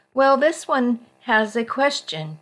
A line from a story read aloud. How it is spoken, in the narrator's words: Charlie said